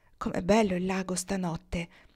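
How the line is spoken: Murmured. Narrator (Italian): mormorò

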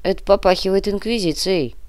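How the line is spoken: Grumble. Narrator (Russian): пробурчал Артем

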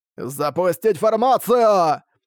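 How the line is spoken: Loud shout, old man. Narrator (Russian): громко закричал один из стариков

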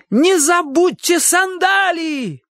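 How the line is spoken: Shout. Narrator (Russian): крикнул Чик

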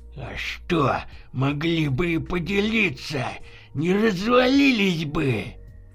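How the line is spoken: Angry grumbling. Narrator (Russian): злобно бурчал Кашеваров

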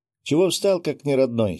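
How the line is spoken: Giggle. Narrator (Russian): хихикнул хранитель

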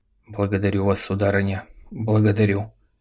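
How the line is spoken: Bewildered. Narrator (Russian): Он растерянно произнес

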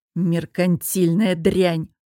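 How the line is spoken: Hissing. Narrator (Russian): прошипел объект

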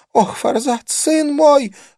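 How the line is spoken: Sobbing. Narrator (Russian): она всхлипнула

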